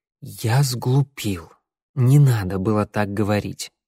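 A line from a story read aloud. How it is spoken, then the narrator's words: Strained, reluctant admission. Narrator (Russian): Наконец я выдавил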